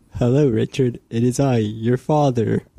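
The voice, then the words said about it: Impression of another person's voice. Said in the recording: “That was a good impression of Chris. ... That was a good impression.”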